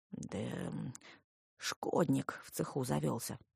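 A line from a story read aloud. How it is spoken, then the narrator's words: Man grumbling. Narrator (Russian): буркнул мужик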